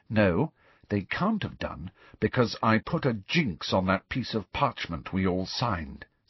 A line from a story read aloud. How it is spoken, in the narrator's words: said Hermione grimly